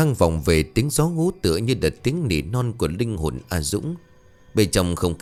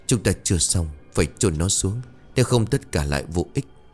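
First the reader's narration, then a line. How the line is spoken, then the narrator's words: Whisper. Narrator (Vietnamese): An thì thào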